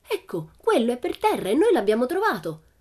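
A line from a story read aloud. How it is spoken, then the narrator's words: Triumphant exclamation. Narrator (Italian): esclamò Pippi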